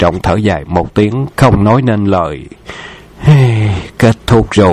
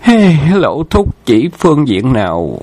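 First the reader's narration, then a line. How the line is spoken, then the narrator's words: Weary sigh. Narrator (Vietnamese): Khâu Trọng ngán ngẩm thở dài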